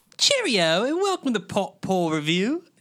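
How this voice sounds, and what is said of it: Put-on British English accent. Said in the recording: “That hurt my ears. ... we are not trying to insult anyone who is British yes. or English. We enjoy your accents. We tried our best”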